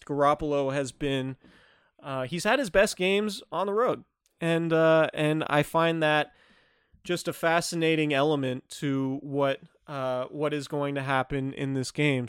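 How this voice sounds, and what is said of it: Flat monotone voice. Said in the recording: “my monotone voice”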